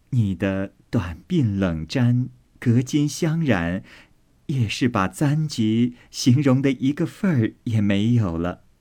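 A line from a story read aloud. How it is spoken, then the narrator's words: Laughing. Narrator (Chinese): 宝钗笑道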